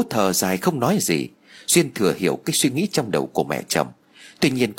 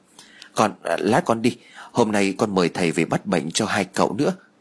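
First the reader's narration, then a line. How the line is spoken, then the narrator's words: Startled stammer. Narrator (Vietnamese): Duyên bị bà Phú làm cho giật mình cho nên bèn lắp bắp nói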